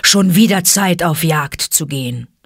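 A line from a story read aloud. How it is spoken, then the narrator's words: Growling wolf. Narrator (German): knurrte Vater Wolf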